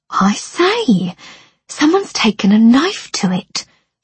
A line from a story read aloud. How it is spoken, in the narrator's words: piped up